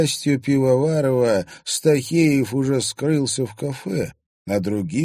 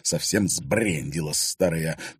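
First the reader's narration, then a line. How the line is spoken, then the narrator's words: Hissed into ear. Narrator (Russian): прошипел Влад ей на ухо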